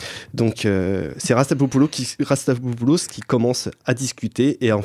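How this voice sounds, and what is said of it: Usual voice. Nothing is said of it.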